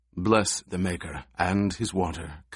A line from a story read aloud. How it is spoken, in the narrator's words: Kynes murmured